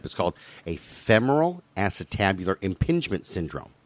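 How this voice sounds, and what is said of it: Slow, deliberate pronunciation. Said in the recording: “I'll say it slowly”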